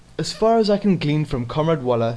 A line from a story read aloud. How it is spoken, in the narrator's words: said Smith